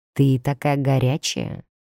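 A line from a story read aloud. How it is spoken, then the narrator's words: Muttered. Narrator (Russian): пробормотал Сайлас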